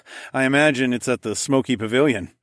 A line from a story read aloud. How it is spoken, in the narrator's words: I laughed